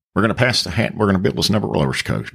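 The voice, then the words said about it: Southern evangelist preacher voice. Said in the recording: “Do like a voice, like a preacher, a Southern preacher voice. ... Like an evangelist.”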